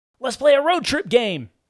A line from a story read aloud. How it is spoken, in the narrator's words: Cooper shouted, exemplifying dad energy